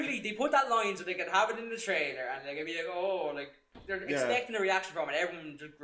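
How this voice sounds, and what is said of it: Usual voice. Nothing is said of it.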